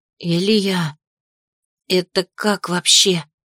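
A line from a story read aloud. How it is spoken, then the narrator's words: Breathed out. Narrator (Russian): выдохнула Ри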